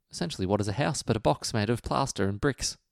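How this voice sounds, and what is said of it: Put-on British accent. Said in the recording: “a bit of a British accent there? Plaster and bricks. ... I decide to go British.”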